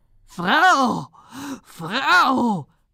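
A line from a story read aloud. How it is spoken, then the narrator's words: Old man roaring, stamping. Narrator (German): brüllte der Alte und stampfte mit den Füßen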